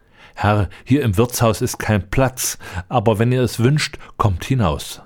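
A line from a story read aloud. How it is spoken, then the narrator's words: Plain. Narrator (German): sagte der Bettler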